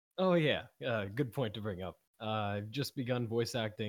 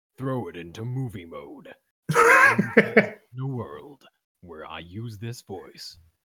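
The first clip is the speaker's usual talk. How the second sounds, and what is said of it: Deep movie-trailer announcer voice. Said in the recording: “you have that perfect disclaimer voice. You have the announcer voice.”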